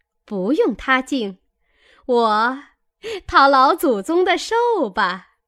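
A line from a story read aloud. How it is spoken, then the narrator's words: Laughing. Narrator (Chinese): 凤姐儿笑道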